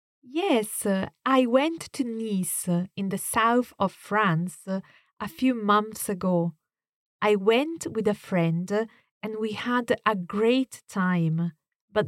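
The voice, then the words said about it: Italian accent in English. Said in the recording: “from Italy, so this is a great opportunity to hear a different accent.”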